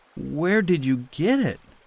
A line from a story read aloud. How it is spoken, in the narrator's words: gasped Peter